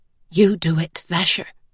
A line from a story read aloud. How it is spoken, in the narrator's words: whispered